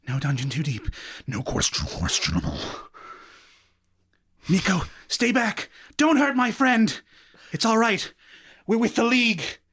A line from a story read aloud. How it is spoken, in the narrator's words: muttering to himself